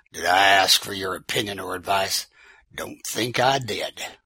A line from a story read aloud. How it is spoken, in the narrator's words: man sneered